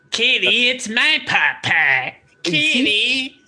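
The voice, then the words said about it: Cartman impression. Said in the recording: “do a Cartman impression ... It's all Kitty and cheesy poofs”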